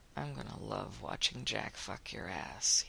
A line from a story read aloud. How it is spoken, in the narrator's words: he murmured against her lips